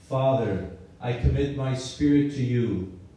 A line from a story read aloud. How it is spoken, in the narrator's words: Jesus shouted